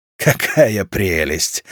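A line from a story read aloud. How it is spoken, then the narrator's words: Loud laughter. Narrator (Russian): расхохотался Ворон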